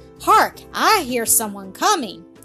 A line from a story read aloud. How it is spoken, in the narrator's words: the red-haired one cried